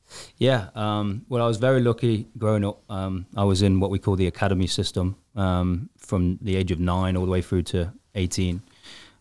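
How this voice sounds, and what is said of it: British accent. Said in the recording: “everybody's going to notice the accent. You're not originally from Western North Carolina ... from the UK”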